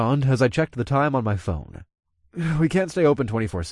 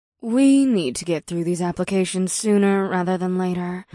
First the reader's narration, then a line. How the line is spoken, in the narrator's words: the succubus sighed